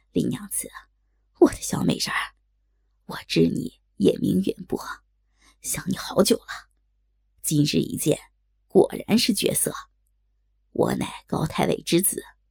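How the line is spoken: Leering laugh. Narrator (Chinese): 淫笑道

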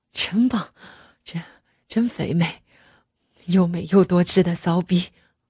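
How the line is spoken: Panting heavily. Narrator (Chinese): 他……还急喘着气儿说道

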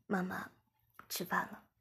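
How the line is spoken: Soft, gentle. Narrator (Chinese): 我轻声对妈妈说

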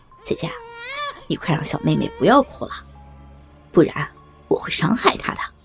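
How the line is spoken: Evil, menacing threat. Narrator (Chinese): 小伟他们邪恶的笑了，小伟恐吓道

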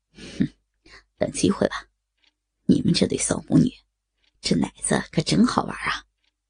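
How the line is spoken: Harsh, stern. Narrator (Chinese): 刘丽明连厉声的说道

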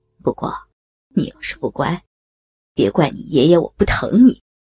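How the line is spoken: Soft whisper. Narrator (Chinese): 他在雅文的耳边轻声说

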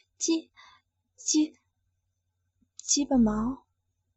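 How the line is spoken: Reluctant, quiet. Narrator (Chinese): 我知道躲不过去了，只好小声说道

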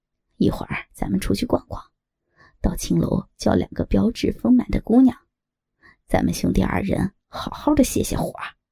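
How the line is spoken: Low voice. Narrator (Chinese): 低声道

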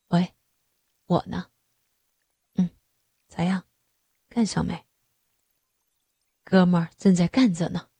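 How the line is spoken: Low, pinched falsetto. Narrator (Chinese): 他捏着嗓子低声说道

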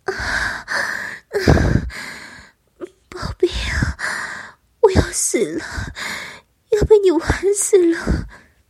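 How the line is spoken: Panting moans. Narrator (Chinese): 由口中喘呼着

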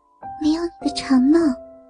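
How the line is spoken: Very quiet whisper. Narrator (Chinese): 老婆靠在我的耳边，极小声的说

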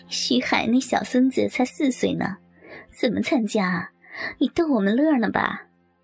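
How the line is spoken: Crowd laughing. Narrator (Chinese): 众人又大笑起来

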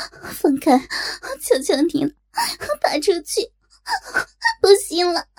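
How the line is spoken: Breathless moaning. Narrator (Chinese): 黄蓉口中胡乱娇喘

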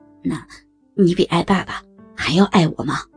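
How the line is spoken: Asking. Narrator (Chinese): 我问着他

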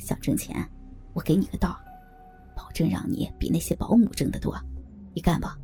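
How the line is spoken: Whispering. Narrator (Chinese): 小声对我说

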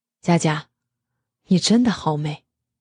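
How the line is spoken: Soft, smug. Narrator (Chinese): 公公越想越得意，轻声说道

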